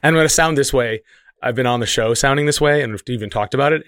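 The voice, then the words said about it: Rough, unwell-sounding voice. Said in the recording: “my voice is still very bad”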